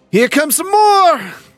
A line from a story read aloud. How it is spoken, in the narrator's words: Deacon yells out to you, Bishop